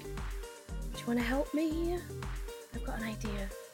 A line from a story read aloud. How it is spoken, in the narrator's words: whisper